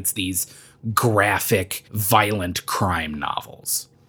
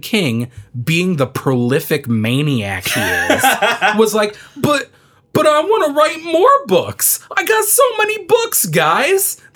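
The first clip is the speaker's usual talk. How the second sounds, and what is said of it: Imitates another person's voice. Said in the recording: “That's my Stephen King impression.”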